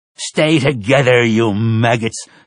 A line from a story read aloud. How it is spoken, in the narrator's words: he snarled